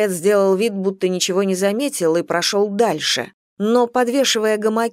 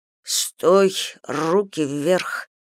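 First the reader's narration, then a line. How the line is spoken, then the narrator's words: Whispered command. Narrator (Russian): шепотом скомандовал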